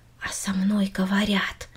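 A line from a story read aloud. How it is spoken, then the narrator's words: Quiet repetition. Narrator (Russian): тихо повторила Минори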